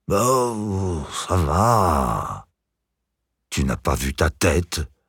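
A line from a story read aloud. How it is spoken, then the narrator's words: Angry hiss. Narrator (French): siffla Vera remontée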